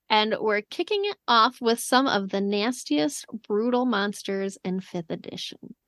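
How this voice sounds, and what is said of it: Midwestern American accent. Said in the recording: “I feel like I said nastiest, really Midwest there.”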